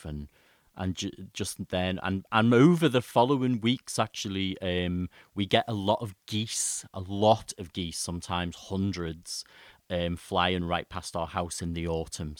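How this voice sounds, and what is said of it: Accent where birds sounds like bears. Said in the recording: “with my accent, people think I'm talking about grizzly bears, but birds”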